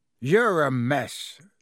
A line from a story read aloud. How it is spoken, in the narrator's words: said Hagrid gruffly